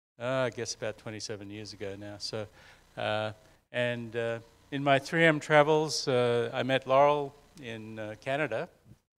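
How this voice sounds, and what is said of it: Australian accent. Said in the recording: “you might guess from the accent... originally from Australia”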